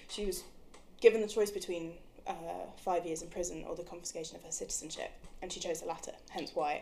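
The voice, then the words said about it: English accent. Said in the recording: “I sound the way I do with my English accent”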